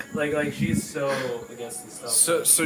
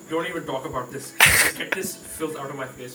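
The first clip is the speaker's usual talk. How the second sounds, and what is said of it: Accented imitation of another person. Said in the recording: “do that accent again.”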